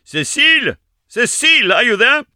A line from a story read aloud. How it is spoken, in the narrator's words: a breathless voice cried